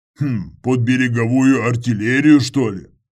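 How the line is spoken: Skeptical snort. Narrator (Russian): хмыкнул Федор

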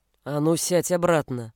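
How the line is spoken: Growl. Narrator (Russian): зарычал Бруно

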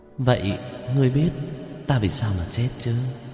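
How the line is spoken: Soft quiet. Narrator (Vietnamese): Hồng Diệp Quỷ Vương khóe môi khẽ mở

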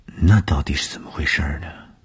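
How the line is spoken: Bashful murmur. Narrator (Chinese): 东风的脸上飞过红晕，喃喃地说

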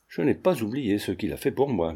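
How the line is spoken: Murmured. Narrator (French): murmura Camille

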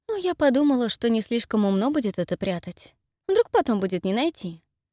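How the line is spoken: Cheerful. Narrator (Russian): Весело говорю я

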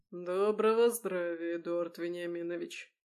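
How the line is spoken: Deep bass voice. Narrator (Russian): пробасил он

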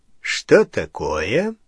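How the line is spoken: Lazy drawl, grating. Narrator (Russian): Знакомый, лениво растягивающий слова голос Люциуса Малфоя резал слух

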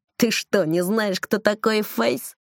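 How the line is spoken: Snort. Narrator (Russian): тот центральный фыркнул

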